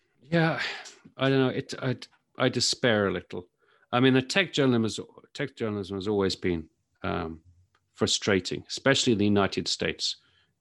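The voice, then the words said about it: British accent. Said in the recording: “As you can probably tell from my accent, I'm from the UK.”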